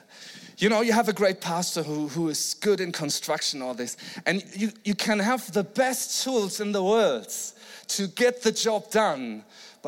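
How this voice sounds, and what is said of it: German-accented English. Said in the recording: “the German accent”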